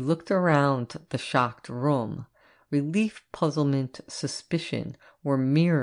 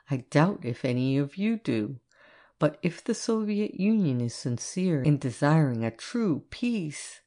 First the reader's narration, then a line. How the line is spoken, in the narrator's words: his voice became very quiet